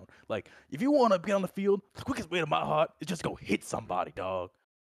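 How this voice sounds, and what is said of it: Imitates another person's voice. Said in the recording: “That's actually a pretty good impression too ... might not have been the same voice, but almost the same kind of rhetoric”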